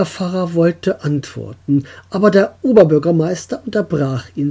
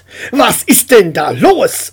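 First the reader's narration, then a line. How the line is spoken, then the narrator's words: Shouted into phone. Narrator (German): schrie ins Telefon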